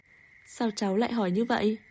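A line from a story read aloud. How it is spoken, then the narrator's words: Amused, laughing question. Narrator (Vietnamese): Bàng Sảnh bật cười khi nghe thấy giọng điệu nghiêm túc của cậu, hỏi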